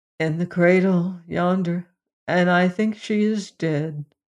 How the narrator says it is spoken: replied the father sadly

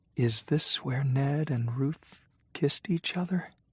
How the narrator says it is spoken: Maddie whispered

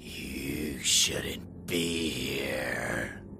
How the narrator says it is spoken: hissed

